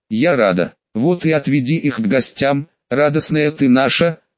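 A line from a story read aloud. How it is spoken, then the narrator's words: Laughing. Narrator (Russian): рассмеялся Кента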